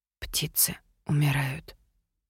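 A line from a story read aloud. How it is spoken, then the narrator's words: Whisper. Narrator (Russian): прошептала я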